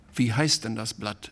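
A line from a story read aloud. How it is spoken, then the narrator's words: Plain question. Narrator (German): fragte Hilke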